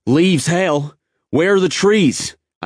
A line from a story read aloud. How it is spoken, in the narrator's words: I yelled back at him